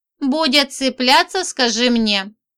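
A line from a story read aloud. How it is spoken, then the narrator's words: Smirking grunt. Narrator (Russian): хмыкнул Чижик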